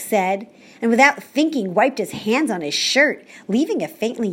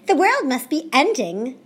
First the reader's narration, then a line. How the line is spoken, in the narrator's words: cried Fridola